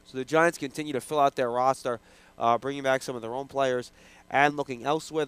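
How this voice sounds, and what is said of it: Voice affected by a cold. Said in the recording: “Pardon my voice, folks. I'm battling a little bit of a cold here.”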